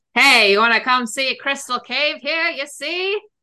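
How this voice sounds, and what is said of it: Put-on mid-Atlantic accent, barker style. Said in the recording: “do your mid-Atlantic accent trying to call somebody into a cave.”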